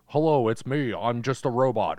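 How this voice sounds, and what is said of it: Lowered voice imitating a robot. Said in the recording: “All I did was lower my voice.”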